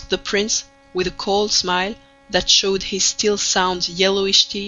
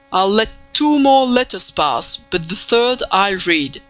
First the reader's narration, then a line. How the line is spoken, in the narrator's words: said the prince sternly